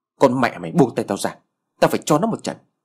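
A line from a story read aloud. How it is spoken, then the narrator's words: Loud shout. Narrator (Vietnamese): Thằng Tân quát lớn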